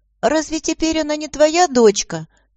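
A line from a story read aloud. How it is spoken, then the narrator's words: Thin squeaky boy's voice. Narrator (Russian): тоненьким голоском пропищал один из мальчиков, тот, что был худой и бледный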